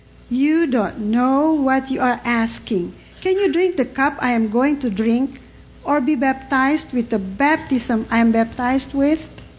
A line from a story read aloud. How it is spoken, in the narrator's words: calmly he replied